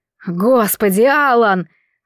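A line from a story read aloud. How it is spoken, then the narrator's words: Disgusted hiss. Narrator (Russian): состроив гримасу отвращения, прошипел Бастиан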